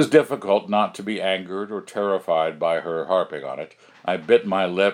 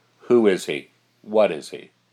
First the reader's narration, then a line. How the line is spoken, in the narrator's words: said sharply